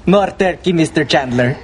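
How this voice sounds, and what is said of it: Thick put-on foreign accent. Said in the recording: “that guy's accent gets thicker and thicker”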